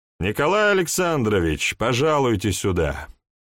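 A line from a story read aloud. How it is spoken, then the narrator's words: Loud call. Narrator (Russian): позвал я громко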